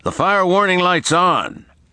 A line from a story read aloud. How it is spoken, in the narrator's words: Private First Class Chris Shipley shouted to Diaz from the driver's hole